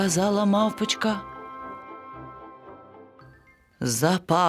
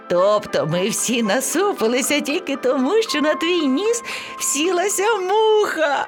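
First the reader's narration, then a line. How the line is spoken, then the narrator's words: Laughing lion cub. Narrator (Ukrainian): Сміялися левеня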